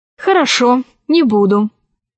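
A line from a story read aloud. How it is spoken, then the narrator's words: Plain. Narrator (Russian): сказала Алиса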